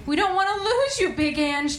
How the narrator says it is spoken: Drita cried

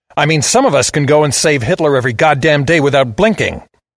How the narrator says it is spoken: I snarled

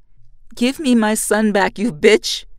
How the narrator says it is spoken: I shout

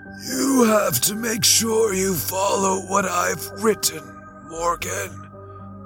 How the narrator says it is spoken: he wheezed

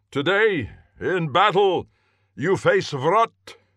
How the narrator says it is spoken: he roared, loudly enough to be heard by even the farthest pursuer, still half a mile distant

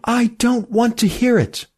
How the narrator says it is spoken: cried Emmy

